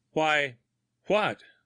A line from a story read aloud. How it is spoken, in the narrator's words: stammered Grimsby